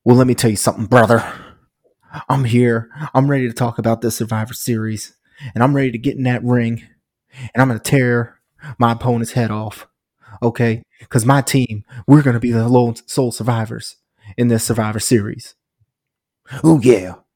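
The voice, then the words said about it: Impression of a wrestler's promo. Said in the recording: “That was a great Honky Tonk Man impression.”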